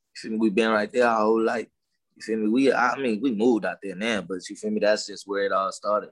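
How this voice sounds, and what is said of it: Southern drawl mixed with LA accent. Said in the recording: “why you sound like you from the South? ... your accent, kind of like the way you the way you say certain words, like it kind of got that Southern draw to it. But it, it do got an LA feel to it too.”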